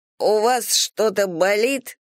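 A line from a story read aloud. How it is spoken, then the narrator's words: Wheezing rasp. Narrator (Russian): прохрипела я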